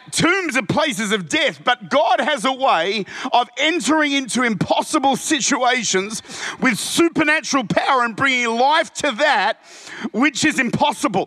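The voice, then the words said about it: Loud, excited yelling. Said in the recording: “I'm yelling. ... I'm frankly quite excited, and I'm trying to calm down”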